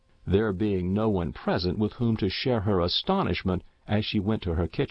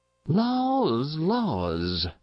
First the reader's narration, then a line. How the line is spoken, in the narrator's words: sighed Mrs